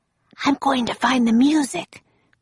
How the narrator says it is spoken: whispered Annie

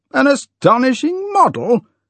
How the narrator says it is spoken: shouted Trevor at the top of his voice

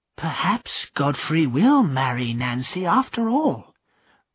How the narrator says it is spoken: the vicar's wife whispered to Mrs

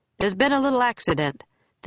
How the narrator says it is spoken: the man in the uniform said cheerfully

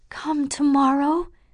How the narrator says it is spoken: Catherine begged

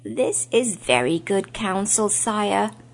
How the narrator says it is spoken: croaked the raven

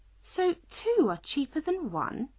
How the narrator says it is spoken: Alice said in a surprised voice

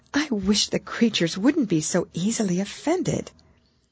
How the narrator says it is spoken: pleaded poor Alice in a piteous tone

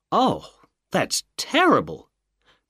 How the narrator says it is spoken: cried Mrs

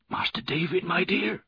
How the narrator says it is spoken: whispered, sobbing

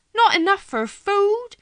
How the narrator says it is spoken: Martha cried aloud

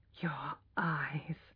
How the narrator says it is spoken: whispered Alec

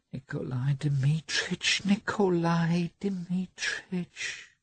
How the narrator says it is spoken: whispered Maria Nikolovna

